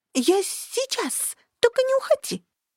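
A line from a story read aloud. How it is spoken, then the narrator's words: Thin squeak, small creature. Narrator (Russian): Монстрик тоненько пискнул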